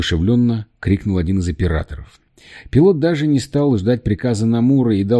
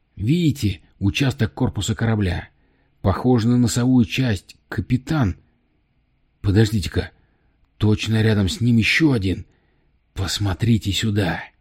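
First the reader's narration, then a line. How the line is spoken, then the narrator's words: Excited. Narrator (Russian): Взволнованно произнес Тремейн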